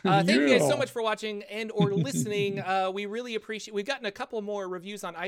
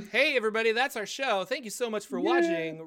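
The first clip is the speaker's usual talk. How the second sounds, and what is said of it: Announcer voice. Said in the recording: “that's my announcer voice.”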